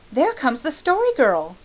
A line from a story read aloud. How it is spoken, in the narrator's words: cried Felicity eagerly